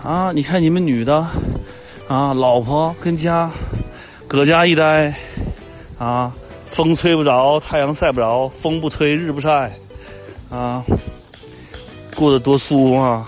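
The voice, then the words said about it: Northeastern Chinese accent. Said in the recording (Chinese): “怎么变东北口音了？”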